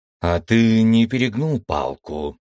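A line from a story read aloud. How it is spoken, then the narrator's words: Uncertain question. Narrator (Russian): неуверенно спросил Харрис у Виктора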